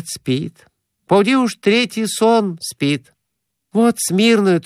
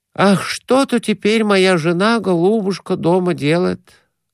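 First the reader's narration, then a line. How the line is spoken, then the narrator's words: Sigh. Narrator (Russian): вздохнул Конурин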